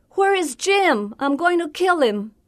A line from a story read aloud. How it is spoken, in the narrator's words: He yells